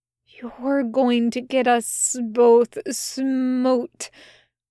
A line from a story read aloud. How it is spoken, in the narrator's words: Crowley hissed